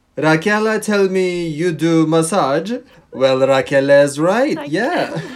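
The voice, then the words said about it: Weird put-on Italian accent. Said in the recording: “this weird Italian accent ... who is obviously not Italian”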